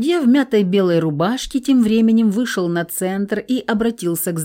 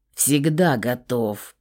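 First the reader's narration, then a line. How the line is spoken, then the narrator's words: Growling. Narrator (Russian): прорычал Верзила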